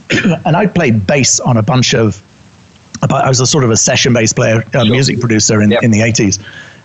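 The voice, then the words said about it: British accent. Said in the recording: “You can tell by my accent, I'm originally British.”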